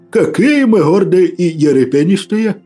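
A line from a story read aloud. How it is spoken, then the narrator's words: Priest's booming laugh. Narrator (Russian): Раскатисто хохотнул поп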